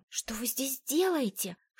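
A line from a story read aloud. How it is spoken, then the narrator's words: Whispered exclamation. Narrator (Russian): шепотом воскликнула я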